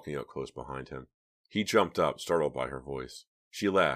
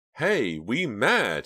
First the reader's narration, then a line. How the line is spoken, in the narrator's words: exclaimed